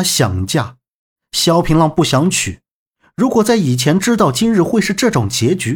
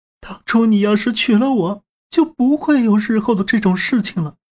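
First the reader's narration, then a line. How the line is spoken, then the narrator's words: Crying nonstop. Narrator (Chinese): 家国公主不停的哭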